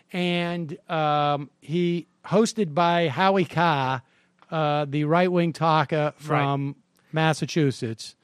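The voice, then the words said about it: Put-on regional accent. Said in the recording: “I love how you can always bring that accent back out.”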